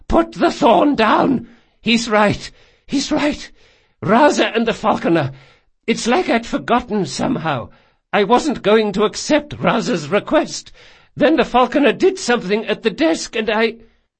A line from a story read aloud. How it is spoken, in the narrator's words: said Doña Vorchenza in a hoarse voice